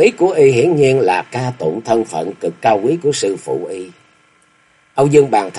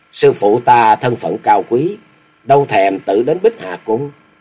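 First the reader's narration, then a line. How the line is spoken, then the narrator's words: Cold voice. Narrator (Vietnamese): Đồng tử lạnh lùng nói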